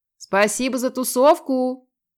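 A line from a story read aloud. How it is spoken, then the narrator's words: Parting shout. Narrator (Russian): крикнула Маринка напоследок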